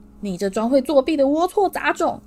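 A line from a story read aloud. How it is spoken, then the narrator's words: Furious roar. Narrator (Chinese): 麦教授……他同样也在愤怒地狂吼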